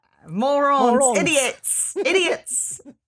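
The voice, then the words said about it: Put-on Australian accent. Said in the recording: “I guess I should be doing this with an Australian accent ... bludgeon you with my Australian accent”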